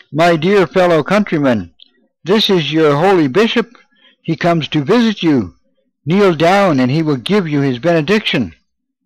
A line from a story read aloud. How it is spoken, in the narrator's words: Thinking that he had not spoken loud enough, he raised his voice and cried